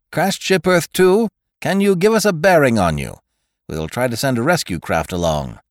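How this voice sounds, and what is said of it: Voice heard over a radio. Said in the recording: “radio voice”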